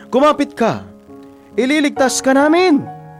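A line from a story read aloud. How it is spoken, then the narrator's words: Shouting from helicopter. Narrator (Tagalog): Sigaw ng nasa helicopter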